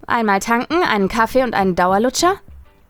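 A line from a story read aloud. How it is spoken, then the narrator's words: Calling out. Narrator (German): rief sie mir bereits entgegen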